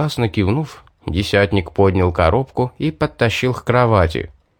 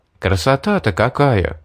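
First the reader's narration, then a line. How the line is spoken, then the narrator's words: Delighted exclamation. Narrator (Russian): восторженно воскликнул я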